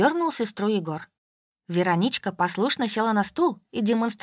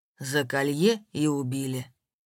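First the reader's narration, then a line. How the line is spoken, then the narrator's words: Gloomy pronouncement. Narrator (Russian): мрачно изрёк Степан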